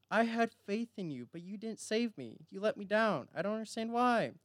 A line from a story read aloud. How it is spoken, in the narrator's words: he exclaimed